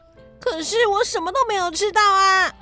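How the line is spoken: Doleful, tearful woman. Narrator (Chinese): 克珊特斯的太太哭丧着脸说

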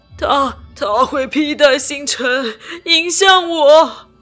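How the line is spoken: Frantic screaming. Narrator (Chinese): 他会狂乱地尖叫着相同的九个字

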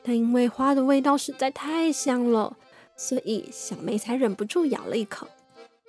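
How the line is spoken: Gentle. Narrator (Chinese): 丽丝熊小姐温柔的说

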